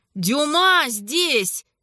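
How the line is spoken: Shout. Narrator (Russian): крикнул Симон

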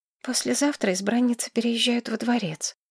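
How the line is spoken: Quiet reply. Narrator (Russian): тихо ответила Маргарет

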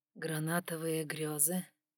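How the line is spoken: Husky, thrilling voice near ear. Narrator (Russian): У самого уха раздался чуть охрипший, волнующий голос

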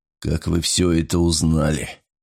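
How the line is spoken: Hoarse rasp. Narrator (Russian): прохрипел Вайланд

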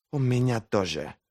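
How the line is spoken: Hissed. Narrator (Russian): прошипела Ферро

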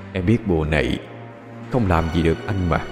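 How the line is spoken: Cold whisper. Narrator (Vietnamese): một luồng gió lạnh thì thầm bên tai cô

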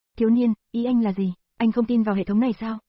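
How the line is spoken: Angry question. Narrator (Vietnamese): Hệ thống tức giận hỏi

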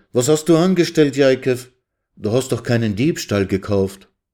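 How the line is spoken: Called out. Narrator (German): rief Resel

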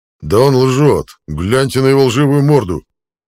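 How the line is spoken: Barking. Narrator (Russian): рявкнул Зетир

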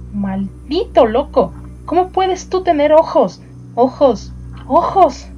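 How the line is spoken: Horrified exclamation. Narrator (Spanish): Nathaniel, espantado, exclamó

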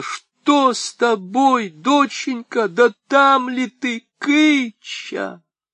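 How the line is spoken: Sudden anxious shout. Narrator (Russian): Не дождавшись ответа, она вдруг закричала

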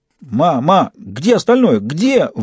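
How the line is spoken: Shout with hysterical giggling. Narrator (Russian): выкрикнул Фист, истерически хихикая

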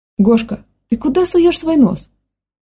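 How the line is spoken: Exclamation. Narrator (Russian): воскликнула Юлия Александровна

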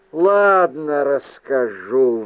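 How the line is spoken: Sigh. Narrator (Russian): вздохнул я

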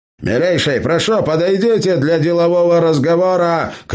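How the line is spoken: Shouted. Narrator (Russian): крикнул он в ту сторону

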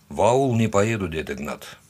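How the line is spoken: Quiet but firm. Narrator (Russian): сказал он тихо, но твердо

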